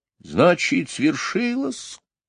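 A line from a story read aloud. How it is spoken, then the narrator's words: Quiet. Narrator (Russian): тихо сказал он Мэри Поппинс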